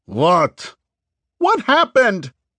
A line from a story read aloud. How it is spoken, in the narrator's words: Gray shouted